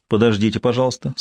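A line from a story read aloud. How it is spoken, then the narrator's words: Plain. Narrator (Russian): сказал дежурный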